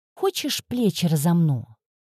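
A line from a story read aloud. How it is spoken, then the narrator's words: Innocent tone. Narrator (Russian): невинным тоном предложила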